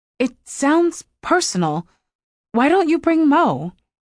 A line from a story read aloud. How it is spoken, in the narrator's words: she stammered